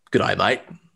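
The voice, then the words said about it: Australian accent, decent attempt. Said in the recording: “in an Australian accent... not bad”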